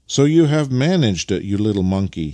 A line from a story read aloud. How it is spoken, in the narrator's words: he exclaimed